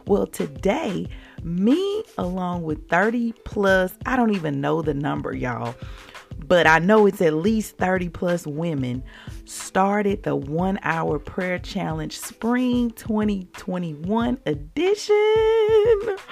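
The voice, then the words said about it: Excited, energetic voice. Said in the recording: “I am super excited this morning. I know you can hear it in my voice.”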